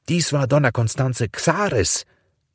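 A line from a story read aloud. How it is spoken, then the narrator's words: Stranger calling out. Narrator (German): rief ein Unbekannter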